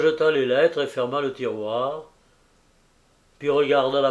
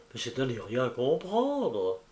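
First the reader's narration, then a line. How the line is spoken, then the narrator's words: Judge murmuring. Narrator (French): Le juge murmura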